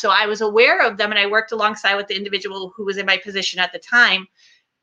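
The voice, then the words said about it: Boston accent. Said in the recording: “based on your accent, you're originally from like the Boston area?”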